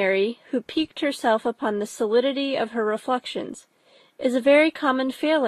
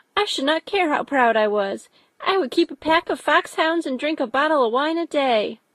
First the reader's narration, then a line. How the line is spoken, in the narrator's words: cried a young Lucas